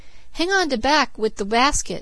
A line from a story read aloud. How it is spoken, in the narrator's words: cried the woman